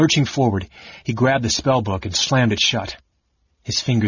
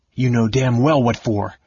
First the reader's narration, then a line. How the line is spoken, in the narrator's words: Caramon snarled with an oath